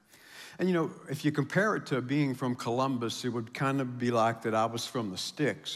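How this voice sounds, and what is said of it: Appalachian southern Ohio accent. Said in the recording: “southern Ohio, strong Appalachian culture, as you can tell by my accent”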